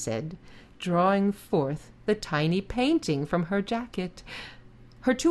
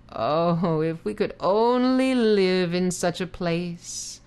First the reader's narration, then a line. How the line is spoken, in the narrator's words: the weaver sighed